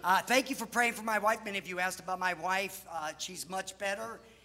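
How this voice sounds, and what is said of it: Sick, hoarse-sounding voice. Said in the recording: “Excuse my voice. ... the nurses said that I sound like I was the one who was sick. ... if I start hacking away, it's because I am sick.”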